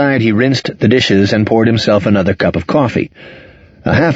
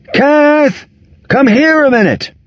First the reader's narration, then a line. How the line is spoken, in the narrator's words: he yelled